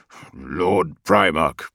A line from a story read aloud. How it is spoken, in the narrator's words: said, his deep voice almost a growl